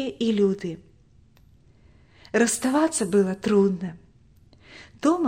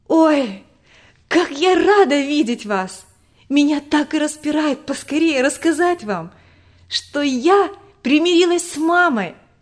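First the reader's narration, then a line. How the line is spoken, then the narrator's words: Joyful. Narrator (Russian): Радостно говорила Тома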